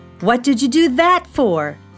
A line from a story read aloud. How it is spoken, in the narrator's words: shouted Felix